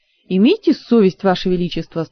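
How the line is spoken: Stern. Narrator (Russian): строго отозвался придворный маг

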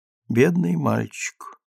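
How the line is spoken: Mutter. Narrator (Russian): Наконец пробормотал

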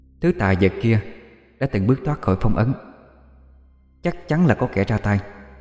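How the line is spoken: Soft voice from within. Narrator (Vietnamese): một giọng nói khe khẽ bên trong

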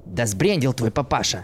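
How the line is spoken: Hiss from corner. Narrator (Russian): Прошипел из своего угла Борис

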